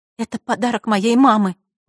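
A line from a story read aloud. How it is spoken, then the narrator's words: Trembling voice. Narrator (Russian): дрожащим голосом произнесла Василиса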